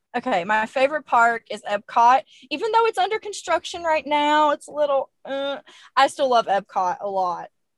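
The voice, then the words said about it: American accent. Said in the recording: “I remember complimenting your accent last time, and I'm just such a fan of your accent ... it's normally the Americans saying it about the Brits”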